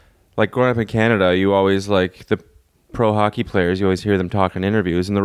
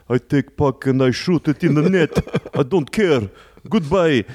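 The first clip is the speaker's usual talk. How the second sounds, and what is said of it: Mock Russian hockey player accent. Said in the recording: “the Russians are like”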